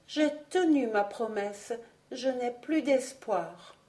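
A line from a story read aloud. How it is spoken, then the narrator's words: Deeply sad voice after pause. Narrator (French): ajouta-t-elle après un court silence et d'une voix profondément triste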